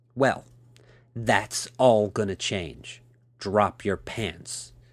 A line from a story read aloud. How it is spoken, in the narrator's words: she said in a stern tone of voice